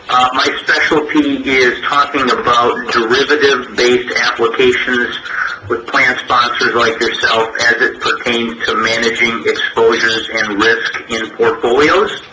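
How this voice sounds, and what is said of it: A somewhat different regional accent. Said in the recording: “You'll probably detect a bit of a different accent than what you're used to.”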